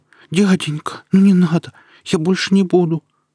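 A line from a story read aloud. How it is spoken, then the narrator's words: Frightened babbling. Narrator (Russian): залепетал он явно напуганным голосом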